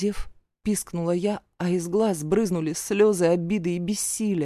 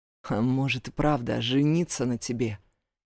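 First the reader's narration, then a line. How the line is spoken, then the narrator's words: Thoughtful mumble. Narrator (Russian): задумчиво пробормотал Ибрагим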